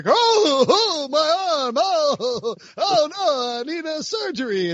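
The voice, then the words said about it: Good Rodney Dangerfield impression. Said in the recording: “you're Rodney Dangerfield? ... Yeah, from Caddyshack. ... That was a good impression.”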